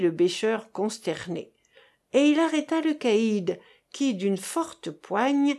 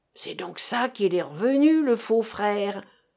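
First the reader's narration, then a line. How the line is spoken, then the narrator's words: Growled. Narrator (French): gronda le Parisien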